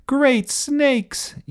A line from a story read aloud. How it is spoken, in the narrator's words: yelled Alfred